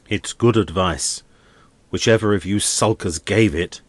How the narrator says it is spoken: he went on angrily

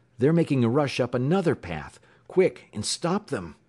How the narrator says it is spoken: exclaimed Wilson, starting to his feet

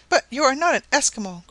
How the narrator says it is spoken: cried Mrs

